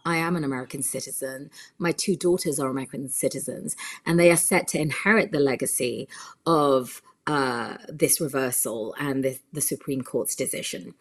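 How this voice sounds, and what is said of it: British English accent. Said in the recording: “you can hear my accent. It's from the UK.”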